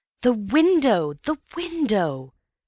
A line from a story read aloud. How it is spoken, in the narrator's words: cried Antony